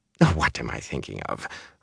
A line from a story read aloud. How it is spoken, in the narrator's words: Rain muttered